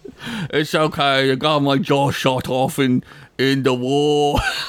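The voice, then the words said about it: Put-on British accent. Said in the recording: “British accent”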